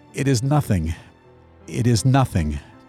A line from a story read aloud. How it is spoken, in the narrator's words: He replied in a choking voice